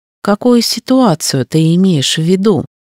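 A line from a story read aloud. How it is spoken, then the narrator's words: Exasperated, patient sigh. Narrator (Russian): вздохнула, будто сын ее был неразумным ребенком, которому приходилось объяснять очевидные вещи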